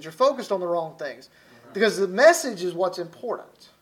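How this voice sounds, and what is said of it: Southern US accent, Alabama. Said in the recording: “the way I talk from Alabama and my southern accent”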